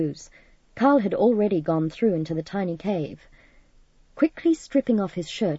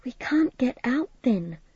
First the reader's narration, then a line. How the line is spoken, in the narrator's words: Midge's voice quavered